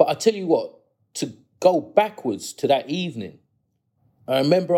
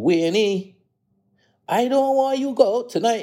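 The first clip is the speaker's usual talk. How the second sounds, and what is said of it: Sing-song Bajan accent. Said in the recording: “my mum's a Bajan ... my mum's got that sing-song Bajan accent”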